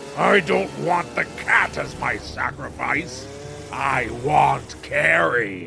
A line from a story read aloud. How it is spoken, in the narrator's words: the pumpkin-headed murderer breaks down the door, wielding a chainsaw and growling out